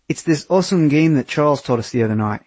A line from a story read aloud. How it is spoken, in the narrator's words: he said in his thick Australian accent